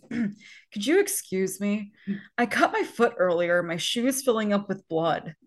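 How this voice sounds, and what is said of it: Imitates a movie character's voice. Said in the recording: “great Romeo impression ... It's spot on.”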